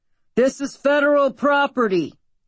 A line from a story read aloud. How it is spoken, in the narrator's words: Derek shouted, his bullhorn forgotten at his side